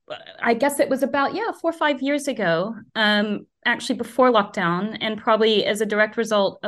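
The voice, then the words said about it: American accent. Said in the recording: “As you can probably hear from my accent, I shouldn't know anything about cricket. And growing up in the US”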